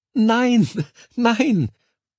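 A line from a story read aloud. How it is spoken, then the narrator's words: Tinny giggle over microphone. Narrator (German): Durch das Mikro kam ein blechernes Kichern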